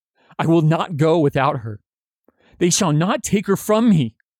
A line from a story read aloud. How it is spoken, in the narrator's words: she wails over Theo's shouts to shut up